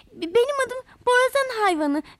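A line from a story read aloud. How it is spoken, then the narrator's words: Stammering. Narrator (Turkish): diye kekelemiş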